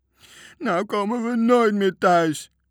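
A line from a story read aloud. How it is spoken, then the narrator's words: Whining. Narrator (Dutch): jammerde Bange Toontje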